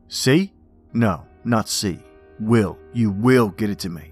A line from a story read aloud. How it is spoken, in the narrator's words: said the man angrily